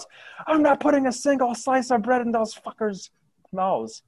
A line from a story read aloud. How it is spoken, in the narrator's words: Another one shouts